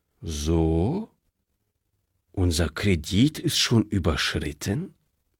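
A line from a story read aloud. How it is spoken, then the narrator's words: Calm question. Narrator (German): fragte der Direktor, und er wunderte sich selbst, wie ruhig er die Frage stellen konnte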